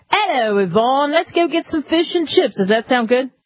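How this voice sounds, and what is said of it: Put-on accent, poorly done. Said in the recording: “It's the accent ... That sounded perfect ... You know that was lousy ... That was smashing”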